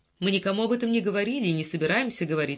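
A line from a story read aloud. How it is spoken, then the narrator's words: Plain. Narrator (Russian): сказал Чалмарс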